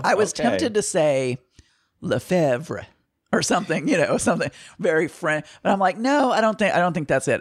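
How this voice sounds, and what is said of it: Southern American accent. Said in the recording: “with my Southern accent, nothing sounds right”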